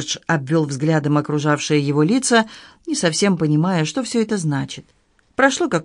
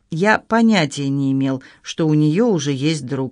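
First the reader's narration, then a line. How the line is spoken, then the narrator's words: Plain. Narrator (Russian): сказал Джордж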